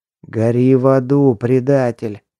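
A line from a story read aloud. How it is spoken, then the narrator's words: Hissed. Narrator (Russian): прошипел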